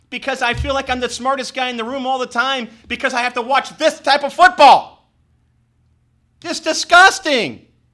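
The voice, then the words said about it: Yelling, loud angry voice. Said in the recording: “I'm yelling”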